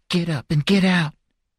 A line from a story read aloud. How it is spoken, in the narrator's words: Sarah saying urgently